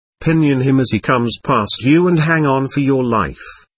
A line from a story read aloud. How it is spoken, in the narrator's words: he said